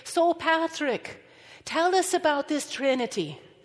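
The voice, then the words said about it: Fake Irish brogue. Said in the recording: “I'm going to roll into an Irish brogue while I'm doing this ... we fake Irish accents”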